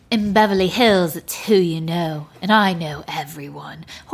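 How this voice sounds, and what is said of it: Poorly done put-on accent. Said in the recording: “Horrible accent, I know.”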